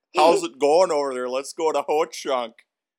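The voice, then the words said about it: Exaggerated Midwestern accent. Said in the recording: “That's a great accent. We should just exaggerate it as much as we can.”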